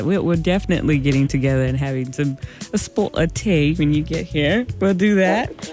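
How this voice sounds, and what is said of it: Attempted English accent, not convincing. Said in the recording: “was that your English accent? ... I tried. It didn't work.”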